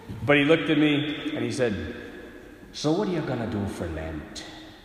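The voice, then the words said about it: Put-on Irish accent. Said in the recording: “I'm going to do my best Irish impersonation”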